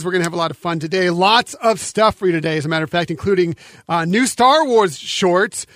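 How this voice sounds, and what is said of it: Cracky, nasal cold-affected voice. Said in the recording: “got a little bit of a cold, so if my voice sounds even more cracky today or a little nasally”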